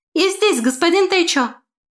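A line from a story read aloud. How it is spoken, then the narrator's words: Shout. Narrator (Russian): крикнула она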